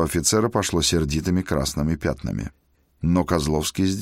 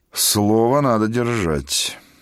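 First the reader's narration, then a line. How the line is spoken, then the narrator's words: Resigned sigh. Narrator (Russian): обреченно вздохнул князь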